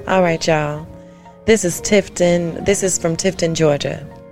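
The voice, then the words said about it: Polished radio announcer voice. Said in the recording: “in her nice radio voice.”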